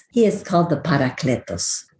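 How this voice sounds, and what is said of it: Word said in put-on Spanish accent. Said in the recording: “I love to say that in a Spanish accent.”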